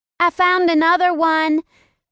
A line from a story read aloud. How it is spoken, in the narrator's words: Finley shouted